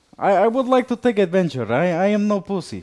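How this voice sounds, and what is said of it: Distinct put-on accent. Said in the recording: “what a distinct accent you acquire.”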